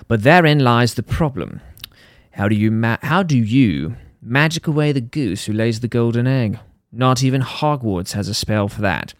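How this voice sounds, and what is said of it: Reads aloud in a put-on accent. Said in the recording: “I'm going to read this the rest of this article in an accent.”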